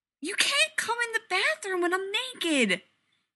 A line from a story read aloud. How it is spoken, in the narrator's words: he yells at the door